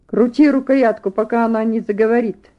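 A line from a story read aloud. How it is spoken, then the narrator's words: Sharp furious command. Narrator (Russian): резко скомандовал разъяренный чиновник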